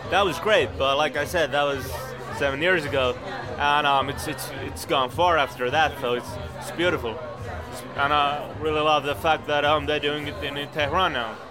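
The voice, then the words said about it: American accent. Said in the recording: “you got American accent”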